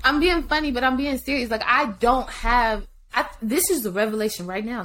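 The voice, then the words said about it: Talking loud and fast. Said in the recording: “why I'm talking so loud and so fast”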